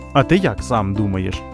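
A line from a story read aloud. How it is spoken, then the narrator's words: Plain. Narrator (Ukrainian): запитала мама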